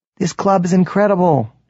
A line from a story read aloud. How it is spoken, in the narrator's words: she shouts